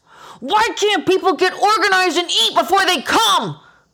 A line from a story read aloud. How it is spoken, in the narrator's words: shout under my hood vent, comforted that the customers can't hear my tantrum